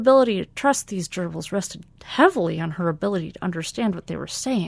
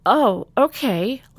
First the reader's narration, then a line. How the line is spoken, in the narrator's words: Lieutenant Vaughn whiffed nervously, sensing danger